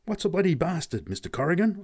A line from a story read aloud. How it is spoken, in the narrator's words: I gasped at last